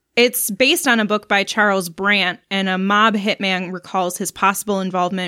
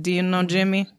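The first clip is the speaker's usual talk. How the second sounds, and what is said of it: Bad Italian-American New Jersey accent. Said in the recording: “This is me trying to do my impression. ... Are you Dracula? ... That was terrible. ... That was pretty bad. The Italians are offended. ... The entire state of New Jersey, they just got pissed at you. ... I'm trying to up my impressions, and they're really awful.”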